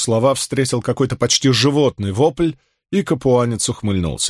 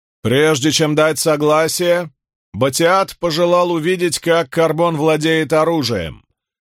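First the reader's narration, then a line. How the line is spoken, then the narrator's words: Loud. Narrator (Russian): громко произнес Фортис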